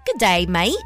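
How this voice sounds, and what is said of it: Put-on Australian accent. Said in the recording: “that's my best Australian accent”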